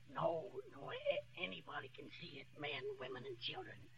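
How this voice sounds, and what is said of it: Whispering, hoarse voice. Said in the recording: “what are you whispering for? ... I got laryngitis.”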